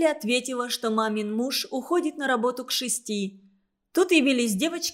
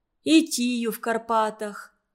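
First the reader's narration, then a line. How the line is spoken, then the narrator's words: Sighing. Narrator (Russian): вздохнула Мерли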